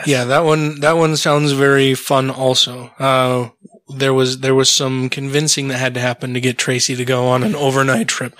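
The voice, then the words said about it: Strained, dry voice. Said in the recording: “my voice is a little strained tonight ... it's just really dry or something”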